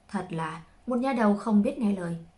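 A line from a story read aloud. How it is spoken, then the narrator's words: Sighing. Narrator (Vietnamese): chỉ thở dài một tiếng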